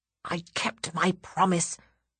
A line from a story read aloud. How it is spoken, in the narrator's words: hiss out of the side of my mouth